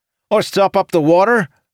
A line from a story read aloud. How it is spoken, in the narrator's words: Another cried